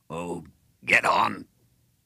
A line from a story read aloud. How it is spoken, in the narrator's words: For the first time he raised his voice